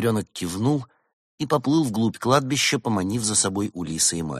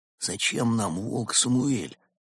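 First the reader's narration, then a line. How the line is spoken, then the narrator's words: Quiet question. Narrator (Russian): тихонько спросил Куала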